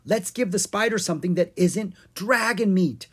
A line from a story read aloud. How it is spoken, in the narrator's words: Owen cried